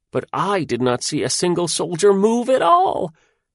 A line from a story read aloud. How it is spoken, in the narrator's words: he said, and his voice went squeaking higher and higher